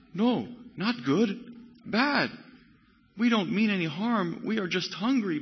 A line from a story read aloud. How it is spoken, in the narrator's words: begged the monster